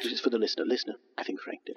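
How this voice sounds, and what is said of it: Very quiet, close-mic aside. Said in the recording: “this is the sound of an aside. That's why my voice is very quiet, and I'm very close to the microphone. Only you can hear me.”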